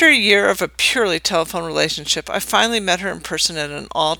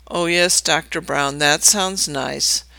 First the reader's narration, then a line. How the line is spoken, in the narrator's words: she would say, followed by a heaving sigh